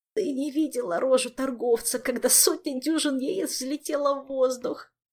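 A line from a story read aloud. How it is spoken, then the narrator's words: Groaning. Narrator (Russian): простонал Хуан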